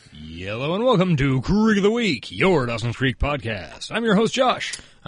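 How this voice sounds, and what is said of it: Rich announcer-style radio voice. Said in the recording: “radio voice at the beginning of this ... My voice has a rich timbre.”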